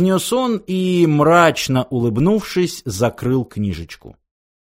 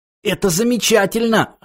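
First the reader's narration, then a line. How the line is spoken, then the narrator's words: Wheezed hoarsely. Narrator (Russian): хрипел Артур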